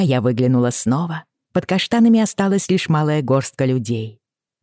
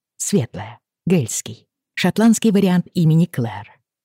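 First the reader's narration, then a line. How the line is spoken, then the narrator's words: Quiet. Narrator (Russian): тихо сказал он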